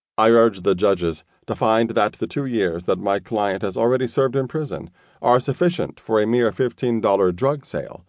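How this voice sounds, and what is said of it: Hard-to-place foreign accent. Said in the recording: “My accent is sometimes hard to place, as I grew up in Paris in a bilingual environment.”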